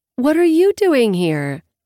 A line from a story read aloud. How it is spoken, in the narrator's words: exclaiming with surprise